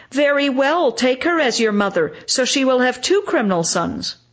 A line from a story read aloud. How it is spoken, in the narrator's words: The former shout